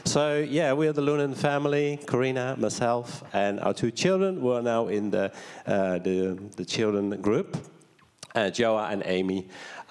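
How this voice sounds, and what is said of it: Dutch accent. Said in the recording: “I come from the Netherlands, as you might hear in my accent”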